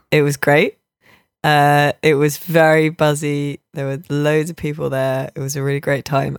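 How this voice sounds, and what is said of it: Congested, stuffy-nosed voice. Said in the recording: “As you can tell, I have a cold.”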